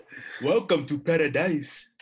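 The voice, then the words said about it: Bad put-on Jamaican accent. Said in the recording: “Jamaica. ... Where'd your accent go? ... It was a really bad accent. ... He used to be Jamaican. ... he was Jafaking.”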